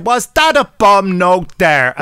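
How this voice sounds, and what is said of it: Exaggerated put-on Irish accent. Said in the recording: “offensive, rubbish Irish accent”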